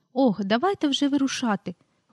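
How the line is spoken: Exclaimed. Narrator (Ukrainian): вигукнула та

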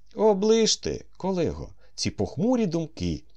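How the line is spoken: Exclaimed. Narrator (Ukrainian): вигукнув Адольф Миколайович

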